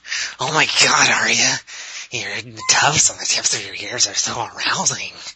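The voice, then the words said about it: Creepy basement nerd character voice. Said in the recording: “the creepy basement nerd”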